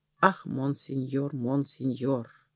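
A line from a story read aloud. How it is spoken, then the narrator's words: Quiet voice near ear. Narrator (Russian): у самого его уха кто-то тихо сказал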